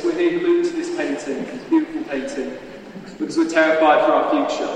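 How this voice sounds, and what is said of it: Speaker with a noticeable accent. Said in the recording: “They do have an accent.”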